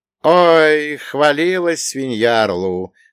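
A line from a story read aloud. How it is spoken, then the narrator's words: Snort. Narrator (Russian): хмыкнул я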